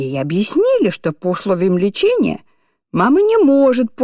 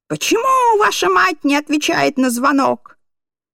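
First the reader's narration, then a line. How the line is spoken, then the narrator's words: Shouting. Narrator (Russian): она закричала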